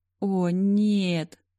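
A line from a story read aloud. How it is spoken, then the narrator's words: Whimpering. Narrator (Russian): заскулил Ленни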